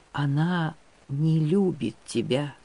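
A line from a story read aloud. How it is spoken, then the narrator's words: Faint whisper. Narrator (Russian): чуть слышным шепотом ответила ему отлетающая душа Выра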